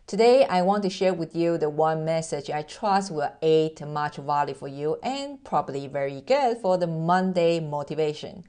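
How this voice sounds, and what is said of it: Mixed Taiwanese-accented English. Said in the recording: “As you can hear that I am originally from Taiwan, I'm Asian, and through the 18 years of relocation, my accent totally mess up. It's like a mixture of American, British English, plus German and Japanese and Mandarin”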